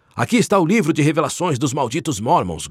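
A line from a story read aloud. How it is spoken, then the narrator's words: Shouting to a crowd. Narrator (Portuguese): gritou um deles para a multidão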